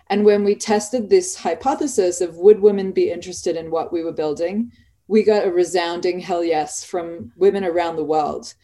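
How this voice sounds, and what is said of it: Australian accent. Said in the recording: “You can hear from my accent, I'm Australian.”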